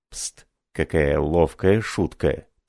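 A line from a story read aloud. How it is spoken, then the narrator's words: Whisper. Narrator (Russian): прошептал Марлот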